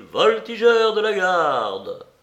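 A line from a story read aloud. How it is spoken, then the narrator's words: Shouting. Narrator (French): cria-t-il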